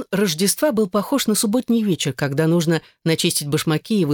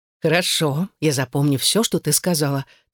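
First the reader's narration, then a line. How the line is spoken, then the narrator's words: Solemn promise. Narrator (Russian): торжественно пообещала Эйлин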